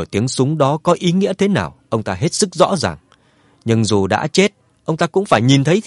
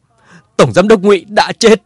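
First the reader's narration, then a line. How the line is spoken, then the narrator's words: Furious tearful shout. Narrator (Vietnamese): Ngụy Thành Châu mắt đỏ giận dữ hét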